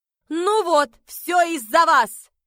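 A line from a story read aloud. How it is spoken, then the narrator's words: Exasperated outburst. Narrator (Russian): в сердцах выкрикнула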